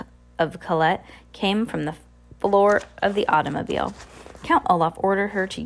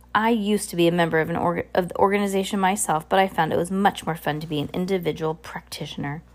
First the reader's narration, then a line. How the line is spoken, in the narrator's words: Olaf growled